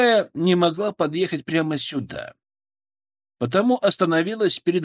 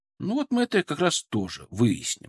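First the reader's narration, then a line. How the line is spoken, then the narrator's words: Calm promise. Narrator (Russian): спокойно пообещал я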